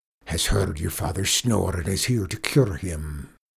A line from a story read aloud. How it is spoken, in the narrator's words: he said hoarsely